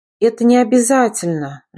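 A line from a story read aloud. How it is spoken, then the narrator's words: Tired speech. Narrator (Russian): прикрыв устало глаза, проговорила я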